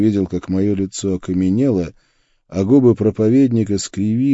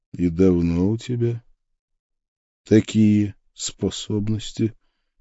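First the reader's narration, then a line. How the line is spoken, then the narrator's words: Gentle question. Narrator (Russian): мягко поинтересовался я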